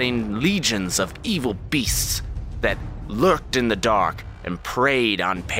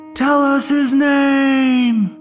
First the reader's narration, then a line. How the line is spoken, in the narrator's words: someone in the crowd shouts